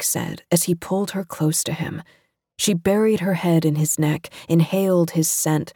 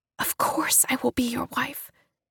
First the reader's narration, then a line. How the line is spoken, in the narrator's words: June whispered, tears in her eyes